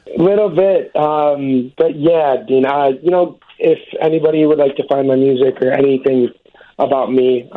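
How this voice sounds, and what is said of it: Choked-up, emotional voice. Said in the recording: “you're a little choked up yourself”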